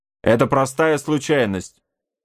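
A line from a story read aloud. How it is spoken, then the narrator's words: Shout. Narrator (Russian): крикнул он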